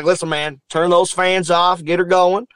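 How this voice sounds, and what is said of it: Thick Southern US accent. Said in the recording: “my southern accented, thick southern accent”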